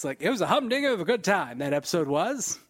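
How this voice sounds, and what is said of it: Old-fashioned period-style character voice. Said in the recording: “It's from simpler times ... Whenever we go into the Agent Carter stuff later this year ... I'm just going to do that voice.”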